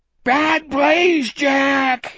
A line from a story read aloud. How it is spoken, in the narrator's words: he screamed